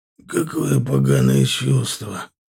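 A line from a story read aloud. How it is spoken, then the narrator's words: Through gritted teeth. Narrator (Russian): Процедил Агланов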